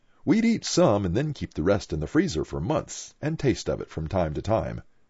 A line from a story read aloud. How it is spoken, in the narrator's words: Jill said